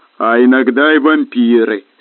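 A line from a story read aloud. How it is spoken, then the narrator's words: Plain. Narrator (Russian): сказал снежный человек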